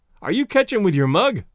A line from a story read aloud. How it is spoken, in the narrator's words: yelled Blandy, the rival catcher